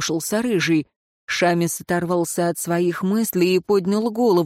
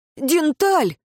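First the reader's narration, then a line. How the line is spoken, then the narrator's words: Exclamation. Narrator (Russian): воскликнул он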